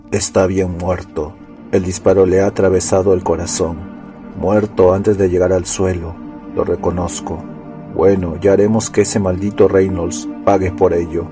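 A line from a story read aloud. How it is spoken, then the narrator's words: Muttered. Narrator (Spanish): masculló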